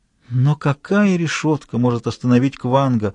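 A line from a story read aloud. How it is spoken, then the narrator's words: Timid objection. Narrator (Russian): робко возразила императрица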